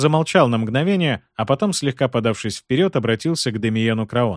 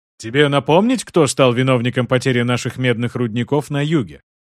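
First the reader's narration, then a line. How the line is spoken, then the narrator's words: Plain. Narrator (Russian): Спросил Арман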